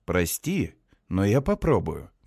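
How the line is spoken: Gentle objection. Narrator (Russian): мягко возражаю

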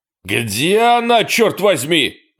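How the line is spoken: Yelling. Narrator (Russian): орал Эрни

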